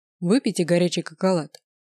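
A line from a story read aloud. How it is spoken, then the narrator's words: Very commanding tone. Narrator (Russian): весьма властным тоном сказал Бармиас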